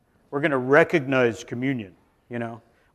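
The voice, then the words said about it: Mock deep solemn voice. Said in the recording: “with a deep voice.”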